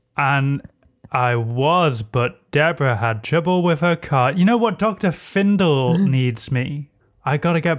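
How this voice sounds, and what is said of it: Voice like Dick Dastardly. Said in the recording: “Why do you sound like Dick Dastardly?”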